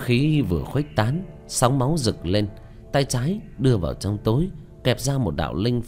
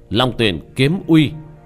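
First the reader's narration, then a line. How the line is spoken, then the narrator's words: Fierce shout. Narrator (Vietnamese): Tiểu Thất quát lên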